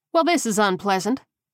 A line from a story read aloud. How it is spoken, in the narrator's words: Coleman said brightly